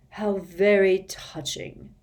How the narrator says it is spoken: sneered Snape

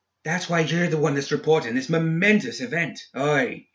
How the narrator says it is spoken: exclaimed

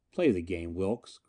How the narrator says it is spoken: Grantline said quietly

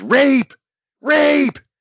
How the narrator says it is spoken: She screeched

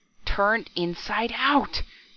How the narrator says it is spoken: gasped hoarsely

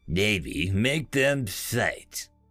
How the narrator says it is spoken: chuckled the ship's executive officer

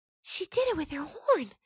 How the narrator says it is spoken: Gotina whispered, awed

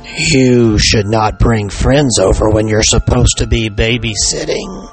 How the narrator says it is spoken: the heavy voice on the other end rasped

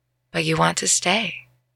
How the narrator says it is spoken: Uma said, softly

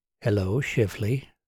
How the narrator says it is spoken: she said softly

